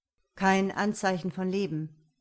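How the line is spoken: Dry, deadpan. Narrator (German): sagte Henning trocken

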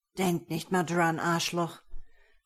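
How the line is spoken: Hoarse coughing voice. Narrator (German): hustete ich mit rauer Stimme

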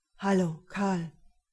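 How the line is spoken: Flat toneless male voice. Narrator (German): Seine Stimme klang tonlos

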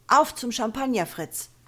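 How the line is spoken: Shouting. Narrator (German): schreit seinem Bruder zu

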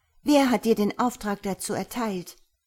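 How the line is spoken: Asked sharply. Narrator (German): fragte sie scharf

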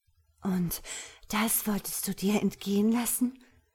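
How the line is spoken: Breathless. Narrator (German): sagte Ella atemlos

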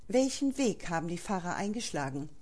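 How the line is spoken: Plain question. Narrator (German): fragte Valentin

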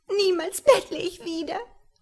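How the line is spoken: Sobbing. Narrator (German): schluchzte

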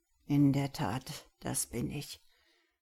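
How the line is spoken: Dejected murmur. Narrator (German): murmelte der Wissenschaftler

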